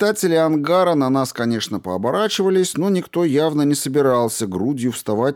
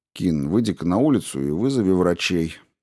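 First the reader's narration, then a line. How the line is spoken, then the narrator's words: Even tone. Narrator (Russian): ровным тоном говорю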